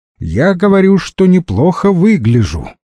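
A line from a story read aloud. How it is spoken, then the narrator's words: Loud explaining. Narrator (Russian): громко объяснила Лена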